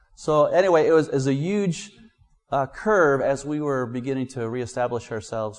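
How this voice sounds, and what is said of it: American accent. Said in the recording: “They hear my accent. ... they actually kind of like Americans”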